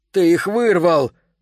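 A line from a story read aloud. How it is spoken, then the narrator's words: Shouting. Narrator (Russian): закричал он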